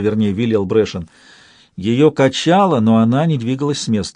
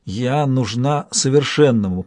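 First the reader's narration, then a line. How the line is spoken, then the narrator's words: Barely audible. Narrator (Russian): произнесла она чуть слышно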